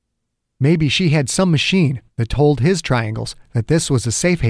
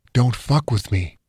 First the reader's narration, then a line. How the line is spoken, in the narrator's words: Perry whispered, smiling all the while